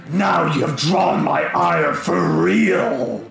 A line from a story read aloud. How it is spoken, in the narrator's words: Kavnakash snarls and says